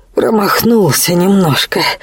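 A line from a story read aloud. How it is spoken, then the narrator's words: Hoarse report. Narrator (Russian): хрипло сообщил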